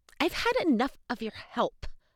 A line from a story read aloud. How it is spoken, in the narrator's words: I snapped